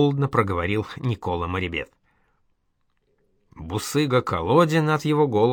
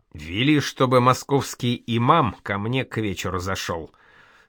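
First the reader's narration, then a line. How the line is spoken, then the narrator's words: Stern. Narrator (Russian): строго сказал Николе Иван III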